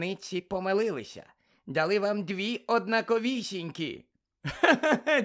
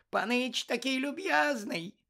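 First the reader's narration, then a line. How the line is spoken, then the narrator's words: Tearful squeak. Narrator (Ukrainian): запищав він, а його очі наповнилися слізьми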